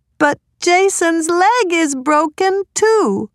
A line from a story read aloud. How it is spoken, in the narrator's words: cried Laura